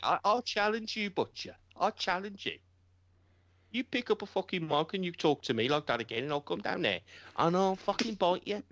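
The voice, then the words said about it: Birmingham English accent. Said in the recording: “that's the Birmingham accent at his best.”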